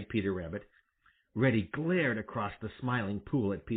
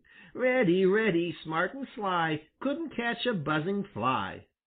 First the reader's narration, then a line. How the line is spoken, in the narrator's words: taunted Peter